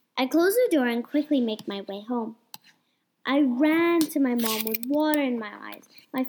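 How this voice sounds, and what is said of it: Usual voice. Nothing is said of it.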